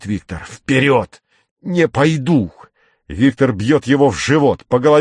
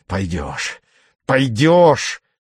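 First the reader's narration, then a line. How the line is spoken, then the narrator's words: Through gritted teeth. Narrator (Russian): цедит он сквозь зубы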